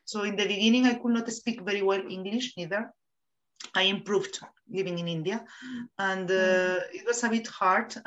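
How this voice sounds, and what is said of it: Spanish-accented English. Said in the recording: “People did not understand my accent, because I think people don't listen to Spanish speakers in English.”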